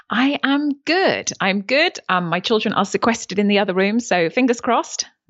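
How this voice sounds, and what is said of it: British accent. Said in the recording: “the most lovely British accent”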